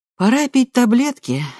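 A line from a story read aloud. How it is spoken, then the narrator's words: Cheerful. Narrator (Russian): весело говорит она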